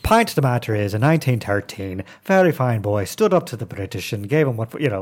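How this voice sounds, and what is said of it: Put-on flat Irish accent. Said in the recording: “I can do a little bit of Irish, right? Let's do Irish ... Irish is flat”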